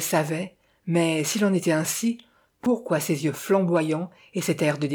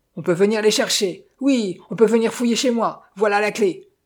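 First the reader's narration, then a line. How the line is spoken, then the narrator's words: Angry shouting. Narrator (French): vociféra-t-il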